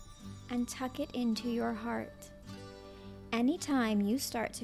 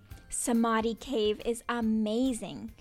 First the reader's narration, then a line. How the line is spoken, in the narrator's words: she exclaimed, with excitement